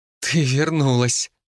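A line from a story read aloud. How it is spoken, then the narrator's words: Joyful exclamation. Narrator (Russian): радостно воскликнула Мартина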